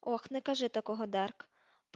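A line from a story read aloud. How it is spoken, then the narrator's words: Muttering. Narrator (Ukrainian): пробурмотів Тед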